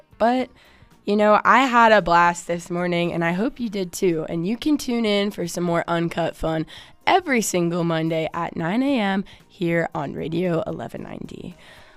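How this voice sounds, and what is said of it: Hoarse voice. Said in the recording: “perhaps without my hoarse voice over it”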